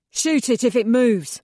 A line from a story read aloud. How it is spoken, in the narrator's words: the lead grunt barks